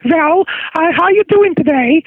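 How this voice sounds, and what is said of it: Old Jewish woman voice. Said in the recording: “I'd do an old Jewish woman.”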